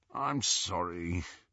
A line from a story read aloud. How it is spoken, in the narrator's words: Ron said, moaning a little